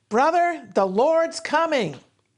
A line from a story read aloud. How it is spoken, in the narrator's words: the pastor wisely shouted